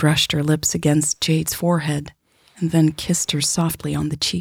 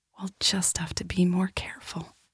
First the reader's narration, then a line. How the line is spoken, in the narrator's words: she whispered into Jade's ear